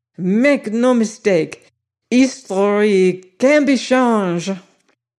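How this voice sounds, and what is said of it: Imperfect French-sounding accent. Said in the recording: “The accent sounded French, but it wasn't quite right. He was some kind of a foreigner”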